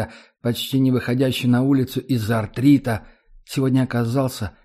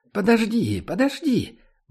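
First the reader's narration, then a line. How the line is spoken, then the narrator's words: Grandmother's exclamation. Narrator (Russian): воскликнула бабушка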